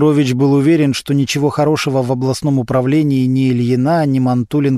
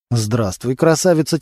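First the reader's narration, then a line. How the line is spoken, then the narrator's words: Quiet, wary speech. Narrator (Russian): тихо сказал Костя, будто боялся, что его услышат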